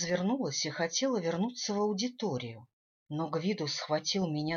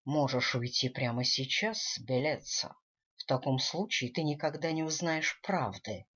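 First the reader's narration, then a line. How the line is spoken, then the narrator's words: Whisper in ear. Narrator (Russian): шепнул он мне на ухо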